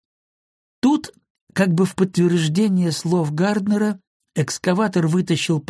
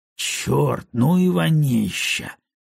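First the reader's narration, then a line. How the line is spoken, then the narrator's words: Muttering. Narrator (Russian): пробормотал один из них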